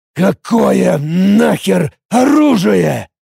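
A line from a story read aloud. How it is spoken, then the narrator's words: Furious rasp. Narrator (Russian): Яростно прохрипел Эд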